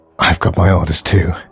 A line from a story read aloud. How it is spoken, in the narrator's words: gasped Sanders